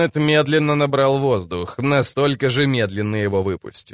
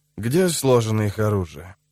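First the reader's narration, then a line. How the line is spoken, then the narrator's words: Quiet question. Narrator (Russian): спросил он тихо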